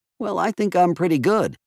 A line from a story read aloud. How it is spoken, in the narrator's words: clear his throat and say, timidly